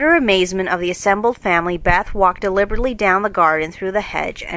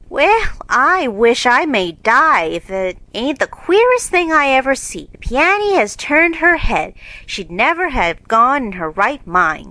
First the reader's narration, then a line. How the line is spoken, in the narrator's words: cried Hannah